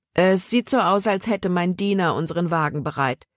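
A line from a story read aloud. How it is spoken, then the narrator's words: Plain. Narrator (German): sagte er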